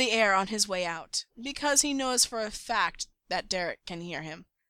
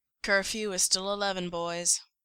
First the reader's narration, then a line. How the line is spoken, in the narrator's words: mutters